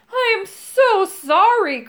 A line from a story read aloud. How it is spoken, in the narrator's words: cried Moongobble